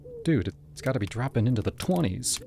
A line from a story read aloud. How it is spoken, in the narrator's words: I muttered